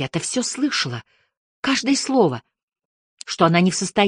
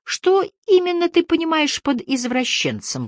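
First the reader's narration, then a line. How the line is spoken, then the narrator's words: Strained, forced out. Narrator (Russian): выдавил он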